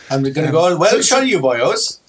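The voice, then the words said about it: Put-on Welsh accent. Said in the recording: “That was a Welsh accent.”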